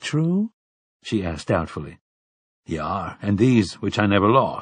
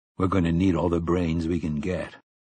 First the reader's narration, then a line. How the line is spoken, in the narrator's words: Roland said, and coughed dryly into his curled fist again